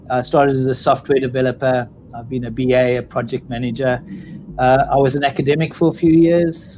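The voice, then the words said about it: South African accent. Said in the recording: “based on my accent, I'm clearly not born and bred in Australia. I'm South African.”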